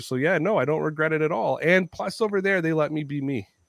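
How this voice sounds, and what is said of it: Toronto accent, slightly New York-like. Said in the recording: “I'm a Canadian with a Toronto accent, so I sound a little New York-y”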